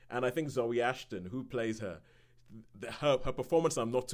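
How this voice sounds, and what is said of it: Usual voice. Nothing is said of it.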